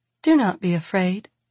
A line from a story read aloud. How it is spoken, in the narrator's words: she says gently, when Madrigal flinches